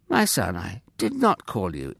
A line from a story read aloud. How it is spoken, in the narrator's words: Eli said kindly